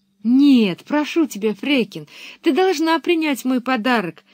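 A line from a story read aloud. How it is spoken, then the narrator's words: Exclamation. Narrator (Russian): воскликнула Пеппи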